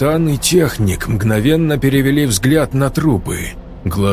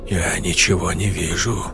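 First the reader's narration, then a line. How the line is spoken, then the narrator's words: Quiet. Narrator (Russian): тихо сказал техник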